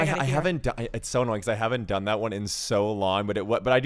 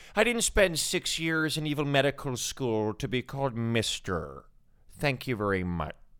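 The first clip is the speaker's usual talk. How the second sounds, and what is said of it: Impression of a film character. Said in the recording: “I do a little doctor ... That was good.”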